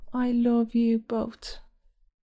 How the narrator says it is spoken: Through blurred vision, the stain of tears, Opinius, his voice barely more than a whisper

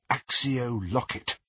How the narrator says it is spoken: murmured

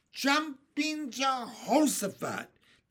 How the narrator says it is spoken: they cried

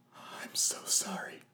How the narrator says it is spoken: Rowan whispered

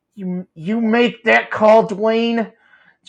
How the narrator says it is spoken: JJ hissed through gritted teeth

